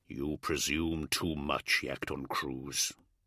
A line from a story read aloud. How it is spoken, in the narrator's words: said the Primarch in a low growl